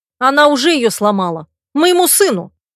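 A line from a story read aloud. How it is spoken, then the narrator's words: Furious growl. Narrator (Russian): рыкнула, готовая крушить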